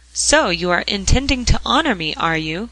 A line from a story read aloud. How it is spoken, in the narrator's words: cried his father, vastly pleased to find himself, as ever, the central figure in their plans